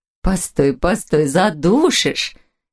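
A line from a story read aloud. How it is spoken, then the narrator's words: Laughing while struggling. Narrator (Russian): смеялась Вера Ивановна, стараясь высвободиться из ее объятий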